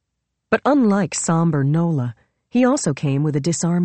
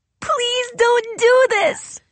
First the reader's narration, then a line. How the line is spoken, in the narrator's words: she yelled